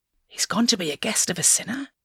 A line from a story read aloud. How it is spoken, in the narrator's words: All the people saw this and began to mutter